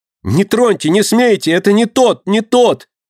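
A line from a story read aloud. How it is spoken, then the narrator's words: Terrified screaming. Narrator (Russian): Обезумев от страха, кричала Динка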